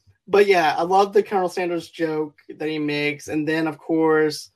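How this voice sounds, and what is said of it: Usual voice. Nothing is said of it.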